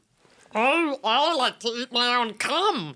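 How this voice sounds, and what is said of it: Imitates another person's voice. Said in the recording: “that was the best impersonation of his entire being”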